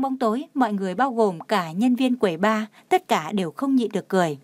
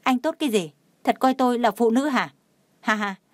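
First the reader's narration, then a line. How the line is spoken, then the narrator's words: Angry loud shout. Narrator (Vietnamese): Tào Anh Kiệt tức giận kêu to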